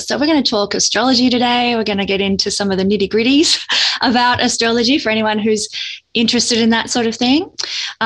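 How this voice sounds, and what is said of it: Australian accent. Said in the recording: “quite obviously from my accent, I'm from Australia”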